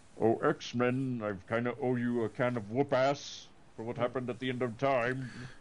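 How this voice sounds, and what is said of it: Imitates a cartoon villain's voice. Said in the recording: “That was a almost interesting impersonation of Apocalypse.”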